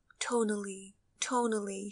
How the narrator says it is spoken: she said again and again in a tender voice

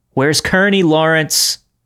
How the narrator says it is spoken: I shouted after him one last time

